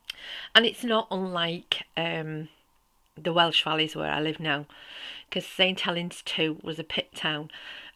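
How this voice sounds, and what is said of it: Northern English accent. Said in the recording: “I'm originally from the north of England, as you can probably tell with my accent, and from a small pit town called St. Helens.”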